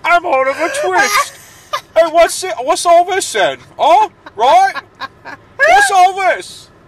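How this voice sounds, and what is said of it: Mock Cockney accent impression. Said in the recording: “I'm not even trying to do a Cockney accent. I'm doing an impression of you.”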